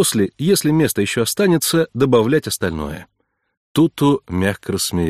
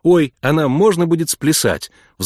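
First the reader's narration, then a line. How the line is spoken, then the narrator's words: Excited question. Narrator (Russian): взволнованно спросила Эмма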